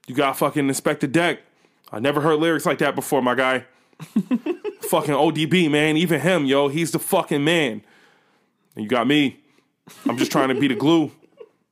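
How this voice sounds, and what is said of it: Imitates another person's voice. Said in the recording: “the best impression of that nigga you ever heard”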